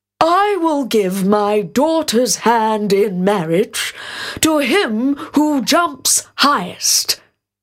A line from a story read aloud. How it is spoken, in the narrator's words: exclaimed the king